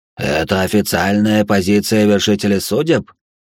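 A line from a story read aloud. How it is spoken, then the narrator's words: Dwarf's creaky voice. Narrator (Russian): проскрипел карлик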